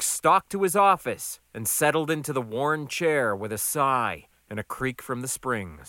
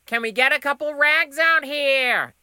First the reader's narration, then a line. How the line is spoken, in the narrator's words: Emmy hollered